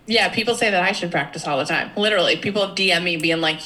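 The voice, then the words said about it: Boston-area accent. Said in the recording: “Jackie lived in Braintree and she has the accent”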